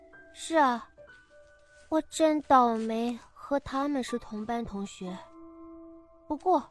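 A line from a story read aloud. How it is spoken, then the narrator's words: Sighing. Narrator (Chinese): 他叹了口气，说道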